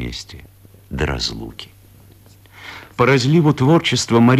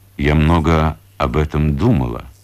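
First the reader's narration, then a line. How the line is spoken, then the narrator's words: Plain. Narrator (Russian): говорит Анастасия Ивановна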